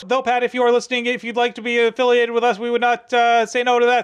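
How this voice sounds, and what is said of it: Very fast talking impression. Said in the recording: “read your part very, very fast ... my Micro Machines Man impersonation is lacking”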